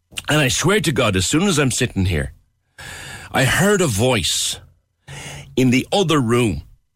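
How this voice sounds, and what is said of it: Thick Cork Irish accent. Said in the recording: “A Cork accent as thick as my own”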